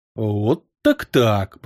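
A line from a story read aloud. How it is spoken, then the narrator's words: Muttered. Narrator (Russian): пробормотал темный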